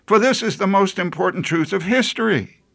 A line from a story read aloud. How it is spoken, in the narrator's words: John pleaded